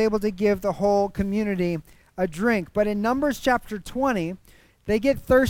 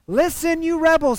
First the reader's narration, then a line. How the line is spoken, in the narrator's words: he shouted